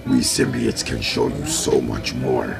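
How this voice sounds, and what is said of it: Imitates a movie symbiote character voice. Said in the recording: “my impression ... the symbiote is like”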